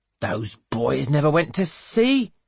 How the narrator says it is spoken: scoffs Mr

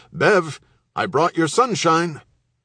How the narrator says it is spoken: he called out

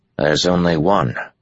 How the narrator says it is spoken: Matt said grimly

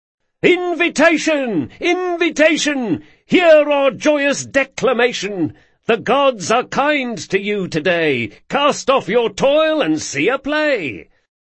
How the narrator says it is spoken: Carlo, perched adroitly atop the rear of the wagon, began to shout

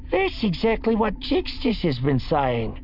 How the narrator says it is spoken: Utro said eagerly, as if her slower brain had finally managed to latch on to something important

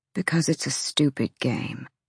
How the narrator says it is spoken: he said, voice empty

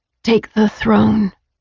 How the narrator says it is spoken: I said hoarsely

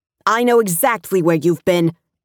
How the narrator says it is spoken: Anna shouted, furious

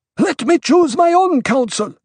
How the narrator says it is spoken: Korba shouted

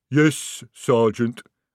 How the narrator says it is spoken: rumbled the troll

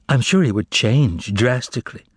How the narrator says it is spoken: interjected the prisoner wistfully

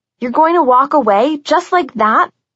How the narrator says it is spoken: I yelled after Jev

